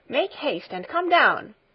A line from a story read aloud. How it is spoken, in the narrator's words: she called again in an urgent voice